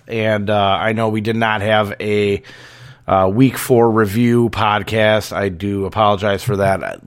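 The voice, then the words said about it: Voice sounding sick from bronchitis. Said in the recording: “as you can tell by my voice, probably, that, I have been dealing with bronchitis ... I've been sick as a dog”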